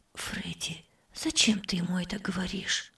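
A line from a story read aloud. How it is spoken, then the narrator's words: Whisper. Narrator (Russian): прошептала тетя Зара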